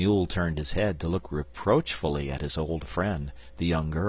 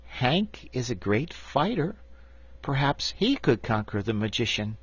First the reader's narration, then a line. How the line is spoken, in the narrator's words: after a time Betsy said in a hesitating voice